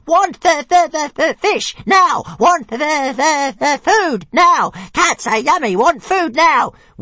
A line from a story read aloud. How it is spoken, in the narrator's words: The dragon struggled wildly, shouting